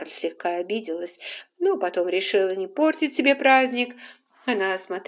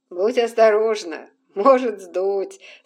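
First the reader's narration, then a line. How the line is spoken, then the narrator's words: Laughing. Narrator (Russian): смеялся Ред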